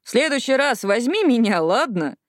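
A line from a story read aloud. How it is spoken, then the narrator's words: Laughing. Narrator (Russian): Джинни рассмеялась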